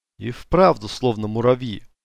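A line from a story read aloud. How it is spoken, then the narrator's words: Muttered. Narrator (Russian): пробормотала она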